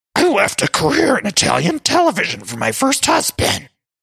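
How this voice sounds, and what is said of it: Grover-like muppet voice impression. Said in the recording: “let me try to do my Luann voice ... my Luann impression, which started as, I believe, a Cookie Monster voice, has now morphed into a Grover voice from Sesame Street ... it's really a Grover voice at this point”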